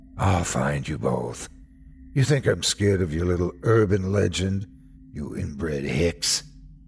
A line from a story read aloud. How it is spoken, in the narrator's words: He laughed, deep and raspy